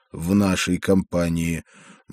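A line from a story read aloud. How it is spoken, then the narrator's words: Gloomy question. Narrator (Russian): мрачно спросил я у проповедника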